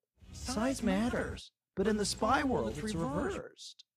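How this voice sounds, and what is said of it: Stuart Little-like voice, vocal fry. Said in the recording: “You sound like Stuart Little. ... It's that like vocal fry at the end.”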